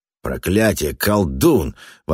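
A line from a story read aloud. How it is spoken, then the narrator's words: Exclamation, then lowered voice. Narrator (Russian): воскликнул Даффи на полуслове, понизив голос, ибо закрученная каменная труба резко усиливала шум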